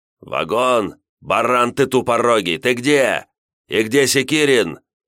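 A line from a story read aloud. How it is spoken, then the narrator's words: Very loud yelling over phone. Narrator (Russian): Звонивший орал в телефон так громко, что его голос без труда можно было услышать, находясь на расстоянии 1,5 метра от динамика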